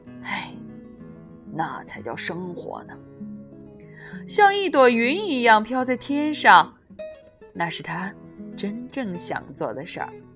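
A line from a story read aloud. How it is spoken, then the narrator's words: Sighing. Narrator (Chinese): 格瑞林先生叹了口气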